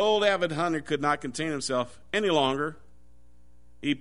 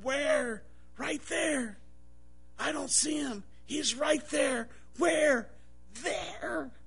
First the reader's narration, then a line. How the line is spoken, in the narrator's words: The novice again searched the woods and whispered